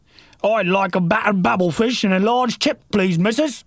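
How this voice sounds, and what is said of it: Put-on British accent. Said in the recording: “Your British accent gets better all the time”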